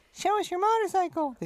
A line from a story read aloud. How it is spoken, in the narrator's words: they squeaked